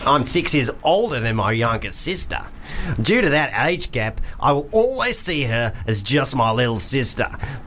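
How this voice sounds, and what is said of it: Put-on Australian accent. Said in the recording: “Doing a Kiwi accent. Kiwi accent. ... No, that sounded really English. ... I'm just going to do Australian”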